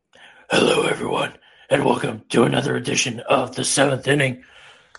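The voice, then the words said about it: Deep gravelly Batman voice. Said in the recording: “we're manly today ... to do the Batman voice”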